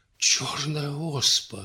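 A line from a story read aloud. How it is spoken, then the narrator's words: Frightened startled exclamation. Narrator (Russian): испуганно вздрогнул Иван Алексеевич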